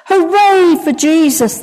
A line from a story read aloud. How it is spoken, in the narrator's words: they shouted